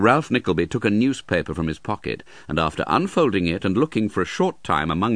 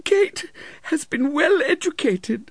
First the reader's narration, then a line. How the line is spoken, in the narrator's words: sobbed Mrs